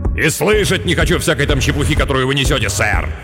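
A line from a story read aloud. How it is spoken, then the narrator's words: Irritated snap. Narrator (Russian): В раздражении огрызнулся Хартплеер, как всегда досадуя на болтовню людей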